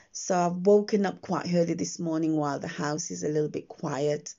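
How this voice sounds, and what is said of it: Croaky morning voice. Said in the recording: “my voice might sound a little bit croaky because I've woken up ... I haven't sort of got my day voice on yet. So it's still the morning voice you're hearing”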